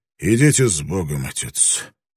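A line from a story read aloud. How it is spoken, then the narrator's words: Hoarse, in Spanish. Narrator (Russian): Блэкторн хрипло сказал по-испански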